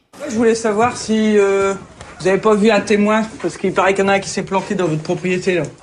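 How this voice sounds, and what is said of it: Northern French accent. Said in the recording (French): “comme l'indique son accent, c'est plutôt dans le Nord”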